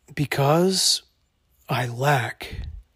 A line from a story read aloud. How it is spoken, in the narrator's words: Dalton said softly